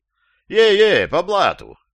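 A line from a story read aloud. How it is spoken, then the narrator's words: Joyful repetition. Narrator (Russian): радостно повторил американец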